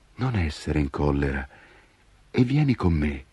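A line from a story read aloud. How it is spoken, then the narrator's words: Child speaking sweetly, smiling. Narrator (Italian): il bambino sorrise dolcemente e disse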